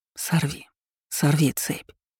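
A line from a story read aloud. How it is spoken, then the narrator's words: Silent mouthed whisper. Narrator (Russian): Он шептал одними губами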